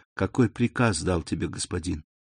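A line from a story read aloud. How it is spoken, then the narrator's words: Barely audible question. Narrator (Russian): она едва слышно спросила Селима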